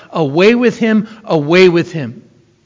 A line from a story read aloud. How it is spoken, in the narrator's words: Two times they shout